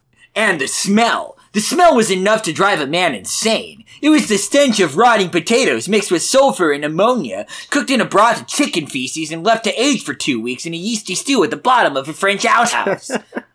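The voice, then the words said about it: Angry Video Game Nerd impression. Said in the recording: “we gotta reread that in an angry video game nerd voice.”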